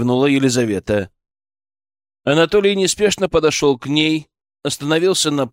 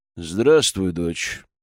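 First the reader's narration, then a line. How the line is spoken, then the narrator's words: Steely greeting. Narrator (Russian): стальным голосом поприветствовал он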